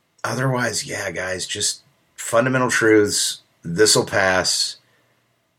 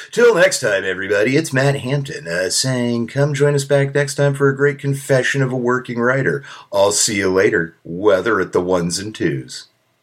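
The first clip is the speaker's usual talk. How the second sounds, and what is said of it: Radio DJ announcer voice. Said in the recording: “I don't know why I feel like doing a radio DJ voice”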